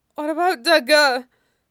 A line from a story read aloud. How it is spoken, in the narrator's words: he asks desperately